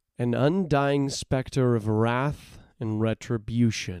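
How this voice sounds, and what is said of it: Usual voice. Nothing is said of it.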